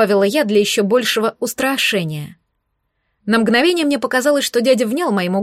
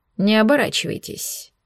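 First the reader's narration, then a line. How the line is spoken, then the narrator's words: Quiet, familiar male voice. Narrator (Russian): тихо проговорил мужской голос, отдаленно показавшийся очень знакомым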